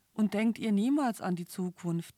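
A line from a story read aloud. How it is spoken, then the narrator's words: Plain. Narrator (German): fragte er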